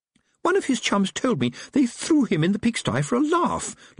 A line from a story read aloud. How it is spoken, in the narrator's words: Letitia said indignantly